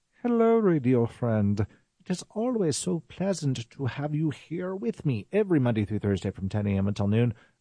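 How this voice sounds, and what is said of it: Put-on accent. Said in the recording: “I'm going to stop that accent.”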